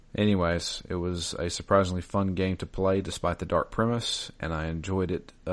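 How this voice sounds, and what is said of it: Usual voice. Nothing is said of it.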